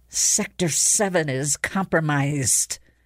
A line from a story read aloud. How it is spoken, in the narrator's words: she hissed, more to herself than to them